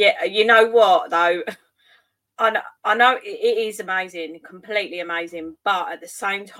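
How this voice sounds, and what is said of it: Usual voice. Nothing is said of it.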